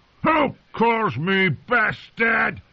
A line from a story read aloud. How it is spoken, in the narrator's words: Craster roared